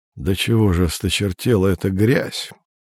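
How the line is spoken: Disgusted mutter. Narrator (Russian): пробормотал он с отвращением

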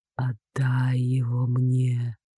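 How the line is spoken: Intrusive whisper. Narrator (Russian): навязчивый шепоток

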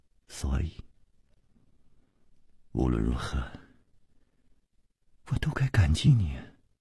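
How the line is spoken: Soft, gentle. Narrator (Chinese): 他温柔地柔声接着说

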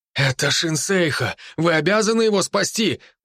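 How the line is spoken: Man's exclamation. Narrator (Russian): воскликнул какой-то араб

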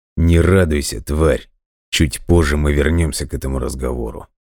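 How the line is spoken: Hiss through teeth. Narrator (Russian): Прошипел сквозь зубы Виктор

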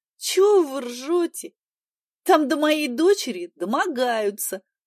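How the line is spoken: Tearful, strained. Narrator (Russian): сквозь слезы выдавила Поля

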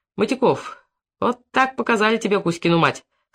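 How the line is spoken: Speaking through laughter. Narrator (Russian): сквозь смех говорил Федор Иванович

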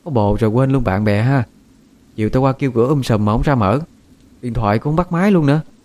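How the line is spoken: Sulky voice. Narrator (Vietnamese): Oanh nói với giọng hờn dỗi

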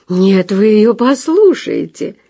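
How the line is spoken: Joyful laughter. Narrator (Russian): радостно засмеялась Зинаида Александровна

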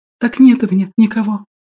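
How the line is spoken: Girl's whisper, teeth chattering. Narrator (Russian): прошептала девочка, цокая зубами

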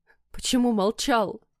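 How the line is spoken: Wife's sobbing reproach. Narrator (Russian): всхлипнув, упрекнула жена

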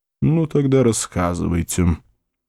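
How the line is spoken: Grunting mumble. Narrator (Russian): Вульф крякнул, пробормотал

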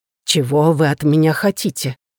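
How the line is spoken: Fearful mumble. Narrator (Russian): промямлил Уикершем совершенно другим тоном, буквально сочившимся страхом

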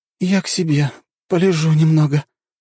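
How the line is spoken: Moaning. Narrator (Russian): простонала Ханока

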